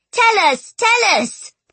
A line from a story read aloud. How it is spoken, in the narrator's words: the children cried